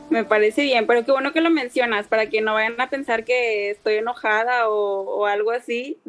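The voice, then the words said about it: Distinctive northern Mexican accent. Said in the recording (Spanish): “de la parte norte del país ... tu acento es muy eh, característico”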